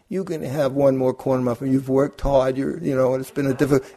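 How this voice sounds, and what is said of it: Inner voice in Brooklyn accent. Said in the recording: “that little voice would come in ... It has a Brooklyn accent.”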